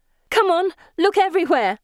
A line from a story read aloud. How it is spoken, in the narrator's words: I shout